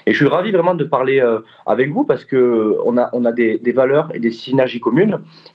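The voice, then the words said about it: Southern French accent. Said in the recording (French): “tu as un accent du Sud”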